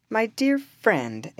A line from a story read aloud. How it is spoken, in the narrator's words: exclaimed Le Joly